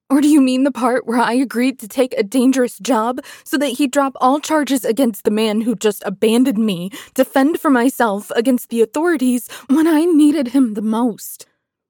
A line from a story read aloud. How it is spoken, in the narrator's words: spat, my voice pure venom